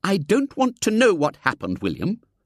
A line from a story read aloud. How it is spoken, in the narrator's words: said his aunt firmly